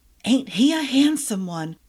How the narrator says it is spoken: a girl whispered

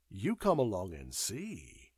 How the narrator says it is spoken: replied Fisher cheerfully

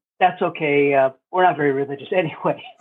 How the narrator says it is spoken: they laughed and said

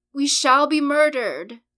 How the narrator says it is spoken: Williamson shouting

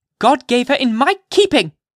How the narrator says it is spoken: repeated Hester Prynne, raising her voice almost to a shriek

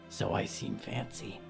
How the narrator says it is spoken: Danielle whispered back

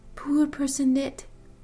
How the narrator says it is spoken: whispered

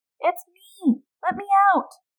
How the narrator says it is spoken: his wife cried out from the sack

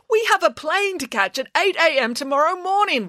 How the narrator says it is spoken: wailed Mr

